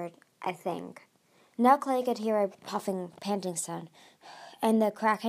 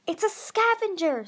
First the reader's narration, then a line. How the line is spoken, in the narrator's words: Tsunami cried with delight